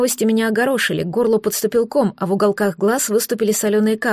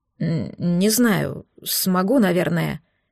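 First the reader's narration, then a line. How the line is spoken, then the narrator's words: Uncertain reply. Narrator (Russian): неуверенно ответил Торм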